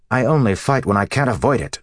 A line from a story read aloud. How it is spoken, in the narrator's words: Matt snapped